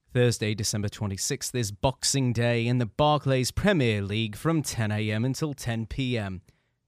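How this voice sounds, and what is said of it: Put-on British soccer-announcer accent. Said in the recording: “I'm going to do this part in a British accent. ... your British accent is only equivalent to the guy who does soccer announcing. Otherwise, it's not...”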